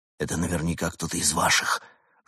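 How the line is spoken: Heated whisper in ear. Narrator (Russian): жарко прошептал Бур спутнику в ухо

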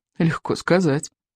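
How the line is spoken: Sighing. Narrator (Russian): вздохнул Икинг

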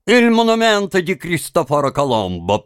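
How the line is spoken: Didactic correcting tone. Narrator (Russian): поправил он Тима поучительным тоном

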